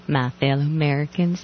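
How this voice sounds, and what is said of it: Affected Southern accent, Laura Bush impression. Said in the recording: “I only do an affected Southern accent when I'm either parroting Laura Bush”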